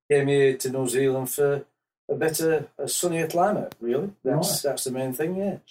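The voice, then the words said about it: Yorkshire English accent. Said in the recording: “you've got a bit of an accent there ... I come from Yorkshire, England.”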